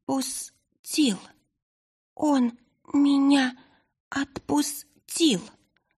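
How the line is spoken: Hoarse from long silence. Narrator (Russian): Сиплым от долгого молчания голосом поведала Айлани

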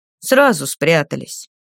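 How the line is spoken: Gloomy mutter. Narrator (Russian): мрачно буркнул один из пленников

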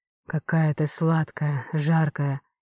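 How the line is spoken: Hoarse passionate growl. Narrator (Russian): Хрипло рычал

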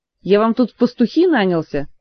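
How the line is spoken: Snappish. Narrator (Russian): огрызнулся Диего

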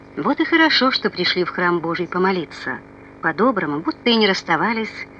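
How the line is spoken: Plain. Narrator (Russian): сказал

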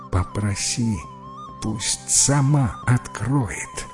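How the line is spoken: Whisper. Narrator (Russian): шепнул Чернулин Джипу

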